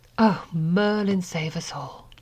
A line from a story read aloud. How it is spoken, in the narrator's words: Draco breathed